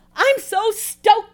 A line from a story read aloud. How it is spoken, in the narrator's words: exclaimed Lee